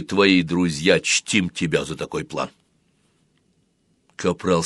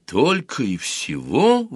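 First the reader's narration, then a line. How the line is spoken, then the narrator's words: Exclaim. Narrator (Russian): воскликнул Дэнни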